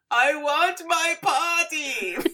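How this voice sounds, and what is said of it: Imitates a character's voice. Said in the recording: “That was a good Agatha impression.”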